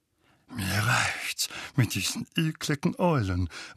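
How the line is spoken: Distraught mutter. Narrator (German): murmelte Onkel Vernon verstört

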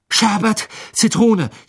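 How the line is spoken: Gasped. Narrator (German): japste ihm entgegen

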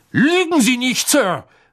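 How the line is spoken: Calling out. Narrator (German): rief Mr

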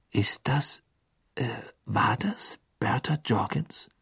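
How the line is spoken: Whispered. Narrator (German): flüsterte Harry

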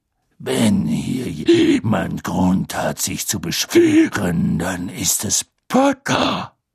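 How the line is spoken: Growling. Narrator (German): knurrte Moody

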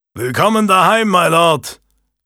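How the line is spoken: Blacksmith's booming call. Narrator (German): rief der Schmied dröhnend

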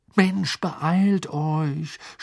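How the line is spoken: Groaning. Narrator (German): stöhnte Ron

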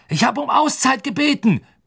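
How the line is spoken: Roaring at a team. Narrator (German): brüllte Woods seinem Team entgegen

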